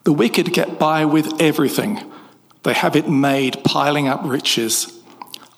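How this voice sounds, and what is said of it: British accent. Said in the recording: “sexy British accent”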